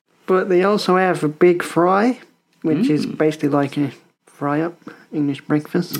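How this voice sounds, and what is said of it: Put-on Australian accent. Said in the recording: “I'm speaking in an Australian accent just because I love doing the Australian accent.”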